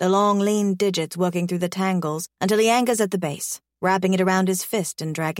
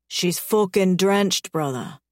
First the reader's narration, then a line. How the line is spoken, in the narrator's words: he growls